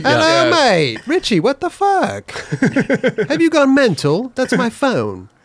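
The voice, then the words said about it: Put-on British accent. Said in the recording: “You don't think my British accent was good? ... Pretty good.”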